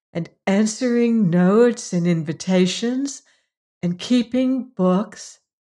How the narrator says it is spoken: said Margaret dreamily

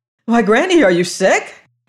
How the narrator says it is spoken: cried anxiously

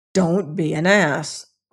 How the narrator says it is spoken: growled his father

